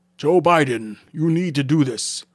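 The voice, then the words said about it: Character voice with put-on accent. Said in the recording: “I don't know why he has this accent. I don't know what to give him his accent.”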